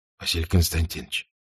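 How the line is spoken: Quiet, commander. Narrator (Russian): тихо говорит один из командиров

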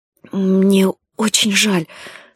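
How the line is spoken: Trembling voice. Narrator (Russian): сказала Павла дрогнувшим голосом

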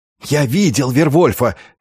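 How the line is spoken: Young man whispering. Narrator (Russian): шептал молодой ремесленник

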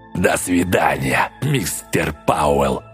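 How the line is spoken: Mumbling. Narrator (Russian): пробурчал Рич

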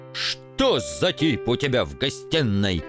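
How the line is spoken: Barking. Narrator (Russian): рявкнул он

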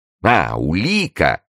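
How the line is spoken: Exclamation. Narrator (Russian): воскликнул король

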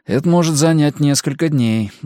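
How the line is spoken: Sighing. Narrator (Russian): вздохнул Габриэль

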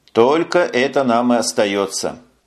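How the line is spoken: Gloomy. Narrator (Russian): мрачно ответил Ренфри

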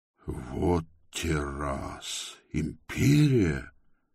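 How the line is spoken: Mutter. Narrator (Russian): пробормотал он

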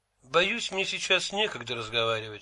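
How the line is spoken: Plain. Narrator (Russian): сказал Лавлейс

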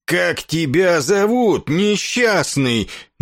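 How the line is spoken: Roaring, then coughing. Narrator (Russian): наконец проревел ракшас и закашлялся, заперхал клыкача мохнатым горлом

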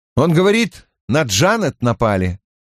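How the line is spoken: Matter-of-fact statement. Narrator (Russian): констатировал я

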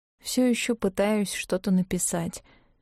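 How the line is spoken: Faint, swooning voice. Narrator (Russian): отозвалась она обморочным голосом

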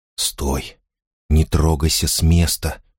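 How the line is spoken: Whispering. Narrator (Russian): шептал Фарид

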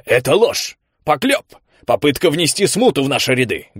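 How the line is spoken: Barking shout. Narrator (Russian): гаркнул Редондо

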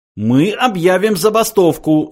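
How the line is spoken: Yelling. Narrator (Russian): завопил Врумфондель

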